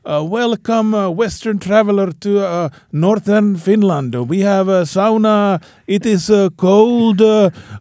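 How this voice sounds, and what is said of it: Put-on Finnish accent, sounding Russian. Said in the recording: “Your Finnish accent's kind of Russian.”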